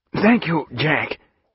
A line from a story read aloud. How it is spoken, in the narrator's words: said, gasping